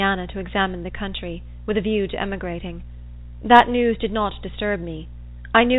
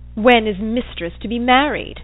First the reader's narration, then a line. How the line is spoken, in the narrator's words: said he in a sneering tone